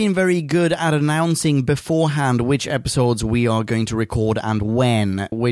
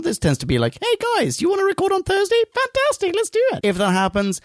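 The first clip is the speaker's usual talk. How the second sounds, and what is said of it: Imitates another person's voice. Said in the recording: “It's the worst impression of me I've ever heard ... I can't believe you think I sound like that!”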